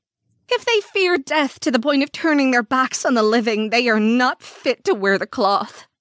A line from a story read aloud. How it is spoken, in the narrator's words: lamented